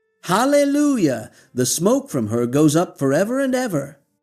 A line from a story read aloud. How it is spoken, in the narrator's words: They shout again